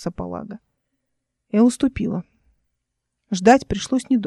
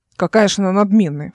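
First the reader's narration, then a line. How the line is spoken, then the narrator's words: Snorting. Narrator (Russian): фыркнул Палага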